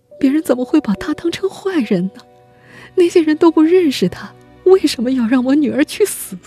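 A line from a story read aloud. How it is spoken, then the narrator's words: Repeated question. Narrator (Chinese): 他一再提出这个问题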